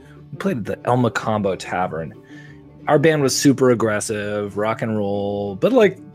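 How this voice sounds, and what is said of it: Usual voice. Nothing is said of it.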